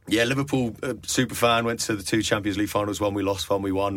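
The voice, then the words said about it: Thick Scouse accent. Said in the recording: “this thick Scouse accent.”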